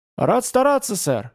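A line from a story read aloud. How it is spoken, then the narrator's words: Cheerful reply. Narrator (Russian): весело отозвался Юнга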